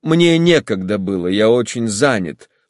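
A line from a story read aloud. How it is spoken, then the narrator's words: Dry reply. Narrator (Russian): сухо ответил Алексей Александрович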